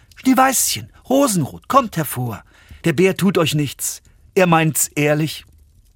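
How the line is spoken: Calling out. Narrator (German): rief

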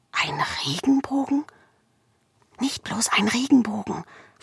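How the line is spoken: Whisper. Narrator (German): flüsterte Marina

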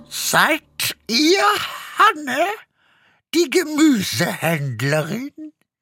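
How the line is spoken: Croaky question. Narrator (German): fragte sie mit krächzender Stimme

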